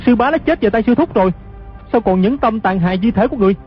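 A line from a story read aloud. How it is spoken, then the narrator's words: Angry shouted question. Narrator (Vietnamese): Hư Trúc cả giận quát hỏi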